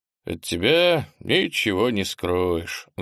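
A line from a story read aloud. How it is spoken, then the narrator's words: Sighed. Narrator (Russian): вздохнул Немченко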